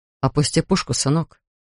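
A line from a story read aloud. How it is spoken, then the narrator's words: Quiet request. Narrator (Russian): тихо попросил Линкольн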